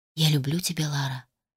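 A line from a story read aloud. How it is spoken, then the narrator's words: Whisper. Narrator (Russian): прошептал Адам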